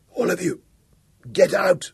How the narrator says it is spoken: said huskily

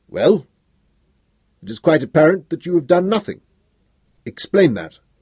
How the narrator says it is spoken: The leader said sharply

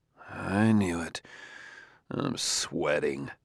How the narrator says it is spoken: Elijah Bailey muttered to himself

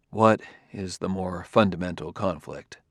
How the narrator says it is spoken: did not feel it safe to display irritation, so he said quietly, almost tentatively

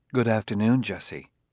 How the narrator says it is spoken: Daniil said in a low murmur

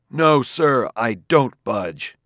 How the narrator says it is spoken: He cried

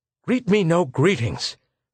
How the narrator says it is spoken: retorted the High Minister impatiently

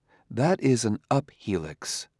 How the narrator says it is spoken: said Daniil, in a low voice

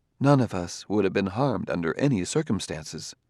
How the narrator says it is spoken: said Daniil softly

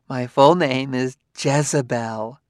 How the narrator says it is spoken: She laughed and said archly

